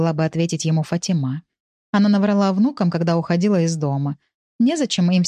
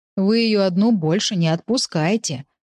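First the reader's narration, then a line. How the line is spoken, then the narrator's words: Grumbling driver. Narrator (Russian): проворчал таксист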